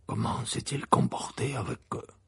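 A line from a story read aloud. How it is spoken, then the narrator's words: Low-voiced question. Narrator (French): demanda Maugré à voix basse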